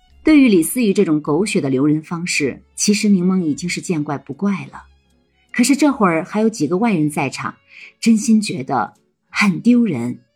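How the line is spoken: Helpless, low voice. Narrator (Chinese): 柠檬无奈的 低声的说

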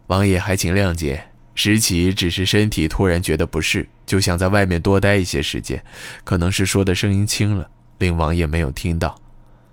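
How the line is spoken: Quiet, faintly smiling. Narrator (Chinese): 石岐脸上带着淡淡的微笑，小声答道

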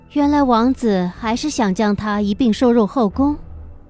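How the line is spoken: Slight smile. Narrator (Chinese): 我微微的笑道

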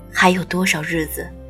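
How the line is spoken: Plain. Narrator (Chinese): 医生说

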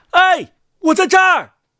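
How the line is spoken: Tin soldier shouting. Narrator (Chinese): 锡兵大叫

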